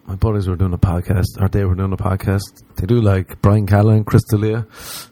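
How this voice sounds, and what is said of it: Irish accent. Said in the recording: “they were mocking my accent... Irish show”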